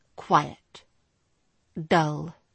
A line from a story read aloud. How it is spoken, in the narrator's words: he supplied coldly